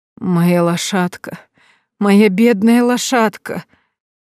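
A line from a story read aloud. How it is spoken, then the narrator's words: Moaning. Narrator (Russian): Простонала она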